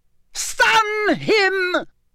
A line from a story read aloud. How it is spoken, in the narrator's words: Voldemort scream